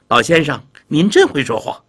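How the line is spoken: Laughing. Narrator (Chinese): 李太后这回笑了

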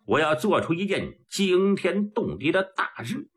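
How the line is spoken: Long hearty laugh. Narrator (Chinese): 普莲哈哈一阵长笑

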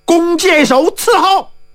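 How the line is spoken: Loud shouted command. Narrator (Chinese): 包金花大叫一声

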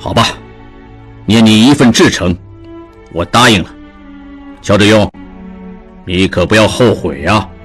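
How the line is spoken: Moved, deep and slow. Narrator (Chinese): 胡元普心中大为感动，半晌沉声道

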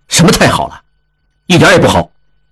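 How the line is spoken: Stern sharp voice. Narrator (Chinese): 应季 厉声道

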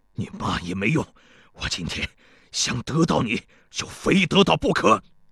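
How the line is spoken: Panting heavily. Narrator (Chinese): 庞聪喘着粗气说道

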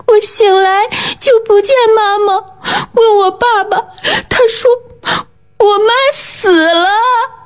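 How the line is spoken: Sobbing. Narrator (Chinese): 猫蛋哭得更伤心了，说

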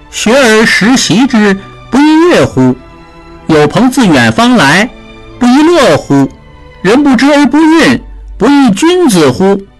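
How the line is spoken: Child reciting rhythmically. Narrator (Chinese): 朗朗读书声，那个叫高瑞的小孩摇头晃脑地念

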